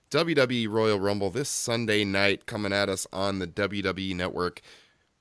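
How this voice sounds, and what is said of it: Hoarse, thrashed voice from a cold. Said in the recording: “cold and all. If you can't tell, my voice is completely thrashed”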